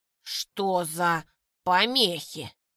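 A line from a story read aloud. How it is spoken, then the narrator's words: Hissing mage. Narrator (Russian): прошипел маг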